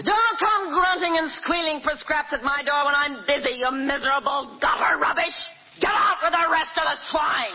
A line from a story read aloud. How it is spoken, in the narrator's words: the innkeeper's wife screamed